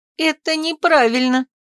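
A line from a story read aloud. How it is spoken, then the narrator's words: Sobbing. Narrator (Russian): всхлипывала Оливия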